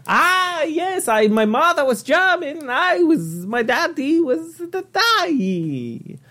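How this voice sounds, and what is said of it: Strange put-on Italian-German accent. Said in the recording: “This is like an Italian-German. ... This is the strangest accent I've ever done ... That's a pretty weird accent”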